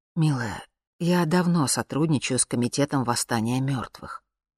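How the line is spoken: Soft male voice. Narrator (Russian): мягко сказал А

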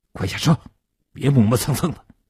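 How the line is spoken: Low harsh command. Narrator (Chinese): 坐在叶成坚右边的年轻人……对叶成坚低声地喝道

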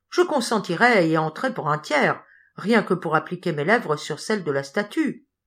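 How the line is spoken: Young man exclaiming. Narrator (French): s'écriait un jeune homme

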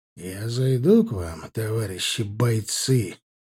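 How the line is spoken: Menacing drawl. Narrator (Russian): как-то угрожающе протянул особист

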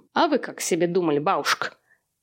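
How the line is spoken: Mocking. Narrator (Russian): тетя Зоя насмешливо

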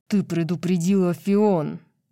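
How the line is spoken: Angel growling. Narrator (Russian): прорычал ангел

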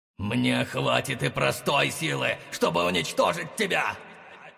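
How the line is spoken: Growled. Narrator (Russian): прорычал хозяин перекрестка

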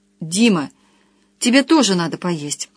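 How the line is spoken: Pleading, insistent tone. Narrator (Russian): произнесла Люся просительно настойчивым тоном

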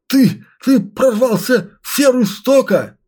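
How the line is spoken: Panicked howl. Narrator (Russian): он затерялся среди своего страха и паники и вскоре взвыл

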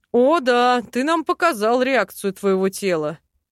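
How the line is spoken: Chuckling. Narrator (Russian): хохотнул этот эльф

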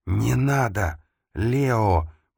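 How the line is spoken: Whisper. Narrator (Russian): прошептал он

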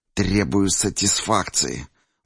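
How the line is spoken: Through gritted teeth. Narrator (Russian): бросил сквозь зубы крысеныш

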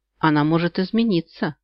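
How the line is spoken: Muffled reply. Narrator (Russian): глухо ответил он

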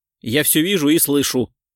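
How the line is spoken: Grumbling. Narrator (Russian): проворчал Кричко

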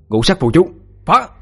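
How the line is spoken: Shout. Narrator (Vietnamese): hét lên

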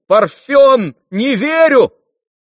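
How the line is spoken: Shouting. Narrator (Russian): крикнул

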